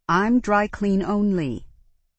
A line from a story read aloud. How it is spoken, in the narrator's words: Sasha said irritably